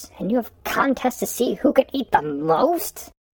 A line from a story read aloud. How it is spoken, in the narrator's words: Steve groaned